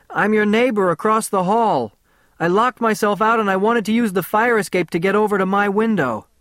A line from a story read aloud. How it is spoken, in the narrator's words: From outside, I shouted